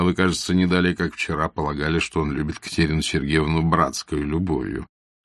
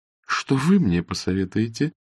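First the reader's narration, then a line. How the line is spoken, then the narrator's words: Question while laughing. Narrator (Russian): спросила Анна Сергеевна, продолжая смеяться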